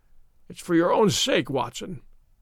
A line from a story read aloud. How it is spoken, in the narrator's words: he croaked